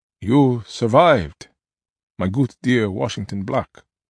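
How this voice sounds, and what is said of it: Thick Dutch accent. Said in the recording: “words in his thick Dutch accent”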